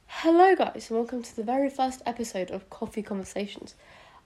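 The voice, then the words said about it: British accent. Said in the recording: “in case you can't already tell by my accent, I am British”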